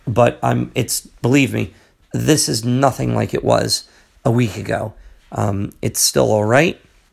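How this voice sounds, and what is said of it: Hoarse, partly lost voice. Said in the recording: “My voice has gone a little bit here”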